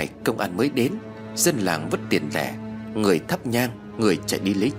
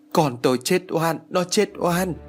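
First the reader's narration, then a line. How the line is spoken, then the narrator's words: Wailing. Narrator (Vietnamese): bà Thành gào thét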